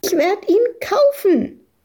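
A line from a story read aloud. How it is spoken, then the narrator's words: Shrieking over others. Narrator (German): kreischte Madita dagegen an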